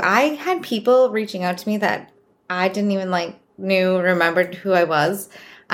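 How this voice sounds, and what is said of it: Boston accent. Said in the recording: “I'm from Boston. So if you notice my accent, that's where it's from, in case it like wasn't obvious enough”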